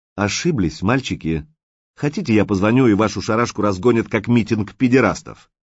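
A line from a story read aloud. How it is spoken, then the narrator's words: Angry smirk. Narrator (Russian): Директор зло усмехнулся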